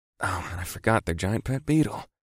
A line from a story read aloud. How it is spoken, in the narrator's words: I muttered to myself